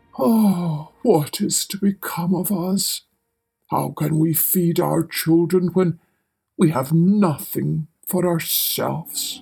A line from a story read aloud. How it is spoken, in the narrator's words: as he was lying in bed worrying about his problems, he sighed and said to his wife